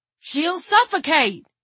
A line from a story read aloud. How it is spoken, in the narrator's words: yelled